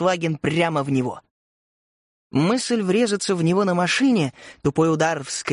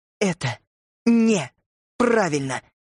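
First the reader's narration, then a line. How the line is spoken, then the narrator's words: Gritted teeth, emphatic words. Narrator (Russian): цедила она сквозь зубы, будто делая ударение на каждом слове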